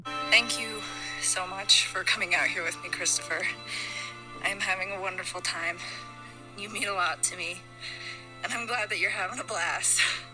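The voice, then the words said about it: Breathless, out-of-breath speech. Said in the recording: “I am so out of breath.”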